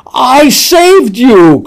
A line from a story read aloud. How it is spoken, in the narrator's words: cried the woman